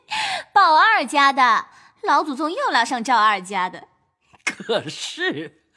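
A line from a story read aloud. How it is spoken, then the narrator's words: Laughing. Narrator (Chinese): 鸳鸯笑道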